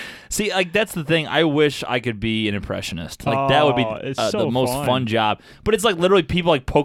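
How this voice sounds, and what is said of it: Usual voice. Nothing is said of it.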